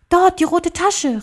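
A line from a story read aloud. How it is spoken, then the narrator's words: Called out. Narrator (German): rief er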